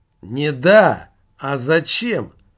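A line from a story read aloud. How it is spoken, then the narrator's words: Rude interruption. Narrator (Russian): грубо встрял Пенза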